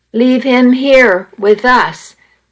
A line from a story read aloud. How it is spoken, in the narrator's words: Maggie said